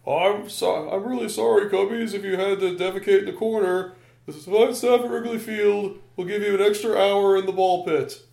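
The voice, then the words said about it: Imitates another person's voice, poorly. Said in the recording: “my Harry Carey impression really sucks”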